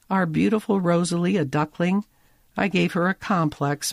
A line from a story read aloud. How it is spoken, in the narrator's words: Molly moans